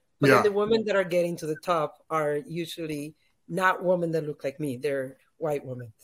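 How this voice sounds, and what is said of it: Hispanic-accented English. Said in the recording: “Afro-Latinas like me, that I'm Black and Hispanic ... We have the accent, we're immigrants”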